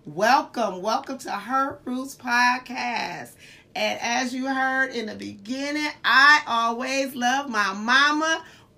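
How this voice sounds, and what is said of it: Voice not at full strength. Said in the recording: “my voice is not at 100%, but I still have one”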